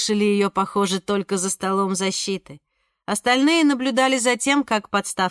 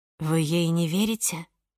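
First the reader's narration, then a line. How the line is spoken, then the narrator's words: Whispered. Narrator (Russian): шепнула Ника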